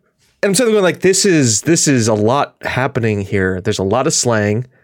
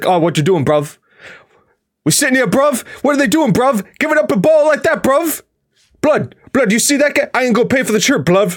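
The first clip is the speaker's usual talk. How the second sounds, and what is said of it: Imitates a London slang accent. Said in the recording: “there is a name for the accent, but there was a lot of bruv and blood in it.”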